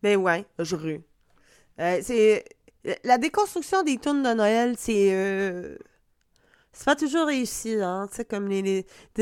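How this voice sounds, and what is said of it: Quebec French accent. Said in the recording (French): “je l'ai dit avec mon accent de Québec”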